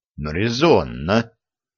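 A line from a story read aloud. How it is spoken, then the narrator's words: Muttered. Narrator (Russian): пробормотал Виталий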